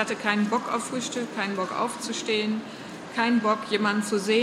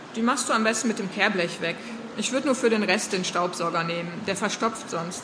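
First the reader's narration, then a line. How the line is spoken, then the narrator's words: Plain. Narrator (German): sagte sie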